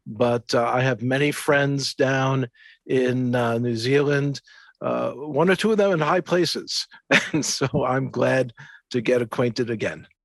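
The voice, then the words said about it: New York Jewish accent. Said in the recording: “none of the accent has rubbed off. I still have that New York Jewish accent”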